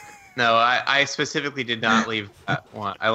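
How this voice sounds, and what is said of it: Usual voice. Nothing is said of it.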